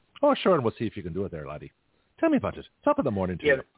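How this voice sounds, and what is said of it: Put-on Irish accent. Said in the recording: “speak in an Irish accent”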